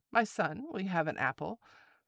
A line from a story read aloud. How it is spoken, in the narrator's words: the wife made her say kindly